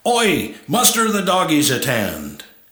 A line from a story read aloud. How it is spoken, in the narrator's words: the Aussie barked out orders